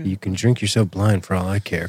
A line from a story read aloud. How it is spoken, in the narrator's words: Krycek muttered